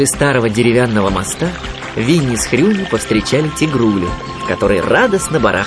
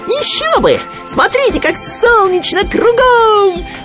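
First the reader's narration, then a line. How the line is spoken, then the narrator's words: Excited squeal. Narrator (Russian): взвизгнул Хрюня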